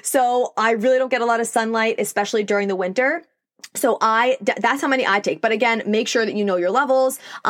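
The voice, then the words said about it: New York accent. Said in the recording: “I'm in New York, if you couldn't tell by my accent.”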